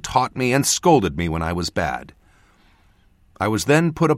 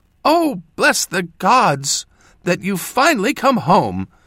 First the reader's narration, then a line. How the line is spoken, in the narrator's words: she exclaimed, unable or unwilling to contain her joy